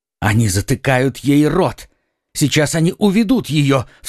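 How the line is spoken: Sudden cry. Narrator (Russian): вскрикнул Д'Артаньян

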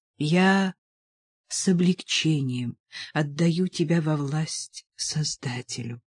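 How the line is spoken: Whisper. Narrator (Russian): прошептала Мария Терезия

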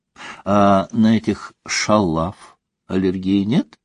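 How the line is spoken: Plain. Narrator (Russian): спросила Елизавета Сергеевна

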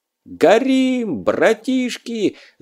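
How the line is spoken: Yelling. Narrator (Russian): завопил Лёва

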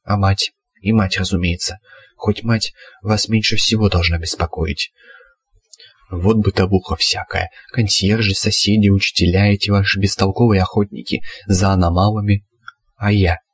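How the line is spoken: Quiet question. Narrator (Russian): тихо спросил Аспирин

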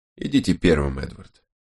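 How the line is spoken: Quiet speech. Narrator (Russian): тихо сказал Крози

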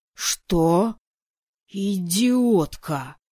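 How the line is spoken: Furious hiss. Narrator (Russian): Яростно прошипел я, давая волю эмоциям

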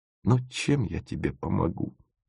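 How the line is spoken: Muttered. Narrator (Russian): пробормотал Тимофеев

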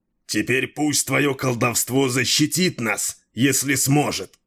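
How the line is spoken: Growl. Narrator (Russian): прорычал Дрибек

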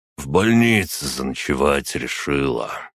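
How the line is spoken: Old man sighing. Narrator (Russian): вздохнул дед

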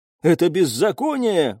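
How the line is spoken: Exclaimed. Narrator (Russian): воскликнул

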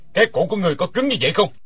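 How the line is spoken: Bellowing. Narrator (Vietnamese): Đinh Điển quát

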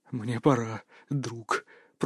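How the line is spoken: Whisper. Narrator (Russian): прошептал Марк

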